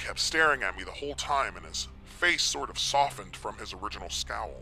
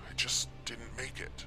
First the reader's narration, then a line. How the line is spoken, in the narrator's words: I mumbled again